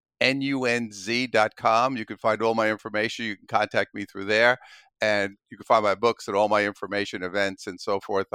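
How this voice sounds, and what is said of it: New York accent. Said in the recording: “I could hear that New York accent from here to New York.”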